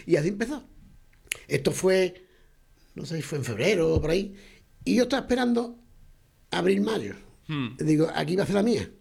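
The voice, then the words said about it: Regional Spanish accent, dropped final s. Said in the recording (Spanish): “las S últimas nunca las he pronunciado ... es un orgullo nuestro acento ... tú hablas como nosotros”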